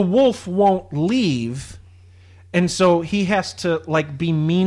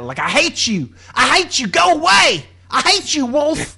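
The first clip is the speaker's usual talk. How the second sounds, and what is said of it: Yelled impression of movie character. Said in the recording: “That's actually a pretty good impression of that.”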